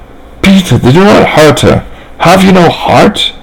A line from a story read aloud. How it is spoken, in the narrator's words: pleaded